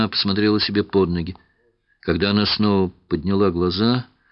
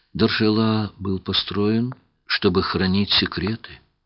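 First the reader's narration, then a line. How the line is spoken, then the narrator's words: Whisper. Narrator (Russian): прошептала она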